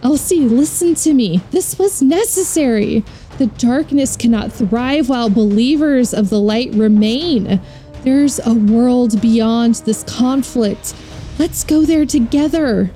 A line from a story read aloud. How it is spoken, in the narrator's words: Anna pleads